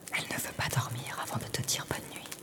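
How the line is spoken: Soft murmur. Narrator (French): murmure-t-elle doucement

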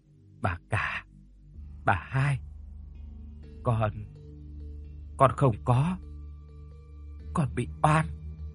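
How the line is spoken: Faint, breathless whisper. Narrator (Vietnamese): Con Thúy còn thở thoi thóp, nó thều thào nói khẽ

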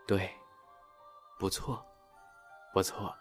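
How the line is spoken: Muttering to oneself. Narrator (Chinese): 不断喃喃自语道

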